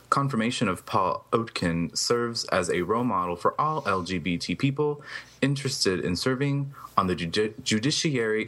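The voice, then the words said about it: Deep professional newsreader voice. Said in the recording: “deep voice you got there, sir. You got a news voice ... You read that like a professional.”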